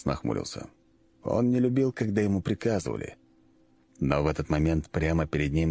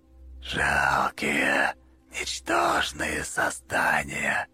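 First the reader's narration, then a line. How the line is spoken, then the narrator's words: Giant shadow's hiss. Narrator (Russian): прошипела тень-гигант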